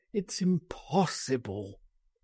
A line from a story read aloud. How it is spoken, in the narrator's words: he groaned